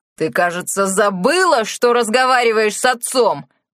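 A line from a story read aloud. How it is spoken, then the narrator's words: Roared. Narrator (Russian): взревел Тео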